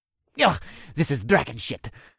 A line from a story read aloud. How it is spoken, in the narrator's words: Eric grumbled